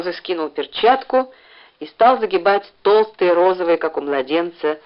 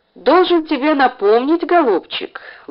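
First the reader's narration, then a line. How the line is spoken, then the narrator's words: Gentle, affectionate. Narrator (Russian): ласково сказал Краузе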